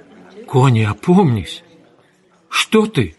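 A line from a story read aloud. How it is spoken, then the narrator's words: Shocked voice. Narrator (Russian): Кей потрясенным голосом сказала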